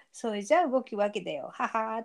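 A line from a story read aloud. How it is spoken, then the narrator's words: Laughing. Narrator (Japanese): って笑ってます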